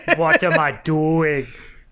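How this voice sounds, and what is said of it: Poor attempt at another person's accent. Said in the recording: “God, I can't do accents. I'm sorry.”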